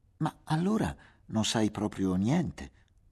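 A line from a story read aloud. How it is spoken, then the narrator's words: Laughing exclamation. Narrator (Italian): esclamò, in una gran risata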